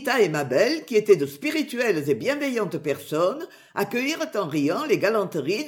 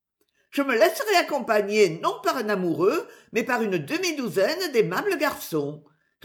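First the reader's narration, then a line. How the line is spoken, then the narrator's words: Cheerful flirtatious reply. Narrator (French): répondit gaiement la coquette Editha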